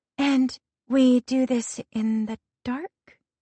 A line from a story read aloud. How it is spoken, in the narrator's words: Meriden asks, her voice timid